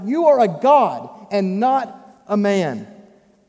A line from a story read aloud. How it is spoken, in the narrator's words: the people shout